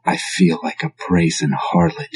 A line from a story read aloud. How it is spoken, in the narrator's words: she whispered